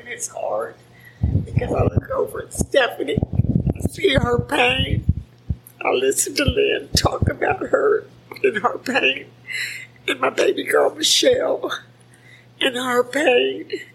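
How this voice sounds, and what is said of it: Quivering, emotional voice. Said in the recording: “my voice is quivering.”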